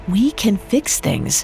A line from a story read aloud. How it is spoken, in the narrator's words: Rufus said gently